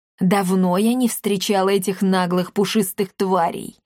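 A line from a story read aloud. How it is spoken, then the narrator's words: Menacing. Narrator (Russian): грозно сказала Коптильда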